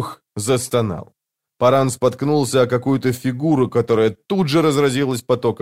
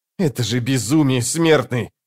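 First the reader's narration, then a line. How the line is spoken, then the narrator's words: Snapping retort. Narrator (Russian): огрызнулся брат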